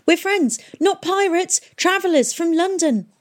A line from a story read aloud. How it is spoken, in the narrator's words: Tom shouted